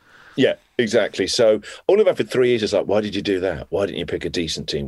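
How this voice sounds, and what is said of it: Plummy upper-class Australian accent. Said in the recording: “the plummy accent. I mean, yours is at least your accent”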